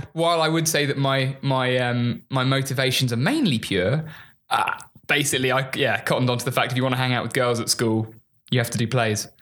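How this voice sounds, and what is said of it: English Sussex accent. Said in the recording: “I can surmise with your accent ... Sussex ... just the accent alone, we all assume you're classically trained immediately upon your dialect”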